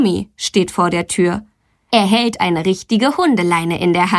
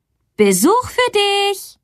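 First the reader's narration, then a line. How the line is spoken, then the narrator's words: Mother calling through house. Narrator (German): Mama ruft durchs Haus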